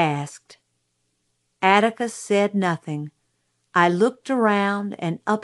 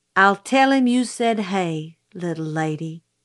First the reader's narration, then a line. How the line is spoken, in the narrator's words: he said